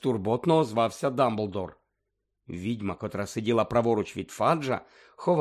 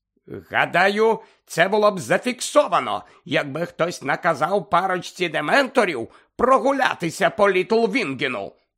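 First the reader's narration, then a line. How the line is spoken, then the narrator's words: Angry. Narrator (Ukrainian): мовив сердито Фадж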